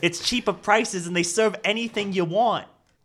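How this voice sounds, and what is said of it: Put-on New York accent. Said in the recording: “Why do I have a New York accent?”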